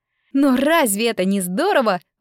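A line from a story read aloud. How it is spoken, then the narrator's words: Excited exclamation, laughing. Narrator (Russian): воскликнула Рико и засмеялась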